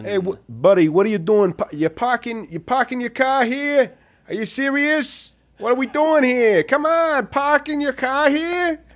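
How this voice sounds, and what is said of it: Put-on Boston accent. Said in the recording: “Can you do a Boston accent?”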